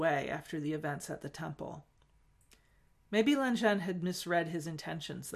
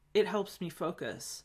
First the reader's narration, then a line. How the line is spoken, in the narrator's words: said